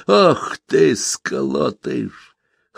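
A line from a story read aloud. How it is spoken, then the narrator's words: Hoarse whisper. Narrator (Russian): хрипло шептал Петр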